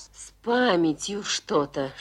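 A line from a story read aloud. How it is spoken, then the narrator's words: Whisper. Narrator (Russian): шепнула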